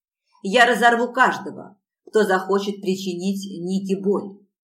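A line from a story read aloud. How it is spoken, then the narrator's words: Furious growl. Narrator (Russian): яростно зарычал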